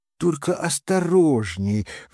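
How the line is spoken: Pleading. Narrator (Russian): взмолилась

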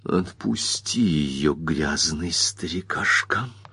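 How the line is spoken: Quiet rusty voice. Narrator (Russian): сказала тихим ржавым голосом

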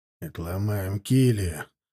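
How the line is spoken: Gruff grumbling mutter. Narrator (Russian): буркнул вечно хмурый моторист

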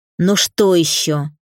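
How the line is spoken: Irritated woman. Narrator (Russian): тетка раздраженно

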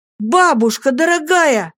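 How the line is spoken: Shout. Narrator (Russian): закричал я

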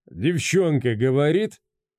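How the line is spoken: Question after laughing. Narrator (Russian): отсмеявшись, осведомился Скотт

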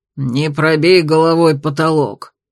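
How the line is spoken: Angry grumbling old man. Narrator (Russian): сердито ворчал мельник

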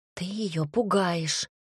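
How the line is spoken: Whisper. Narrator (Russian): прошептала Оливия мужчине

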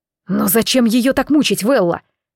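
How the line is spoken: Impulsive exclamation. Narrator (Russian): Не удержавшись, воскликнул Алан

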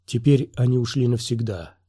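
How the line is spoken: Whisper. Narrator (Russian): шепнула Сириза

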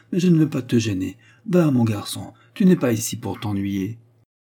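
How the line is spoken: Mother sighing. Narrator (French): répondit sa mère en soupirant

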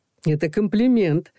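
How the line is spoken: Cheerful. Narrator (Russian): весело произнес Саша

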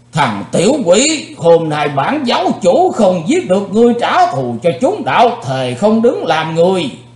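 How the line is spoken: Loud roar. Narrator (Vietnamese): âm ma giáo chủ đã gầm to lên

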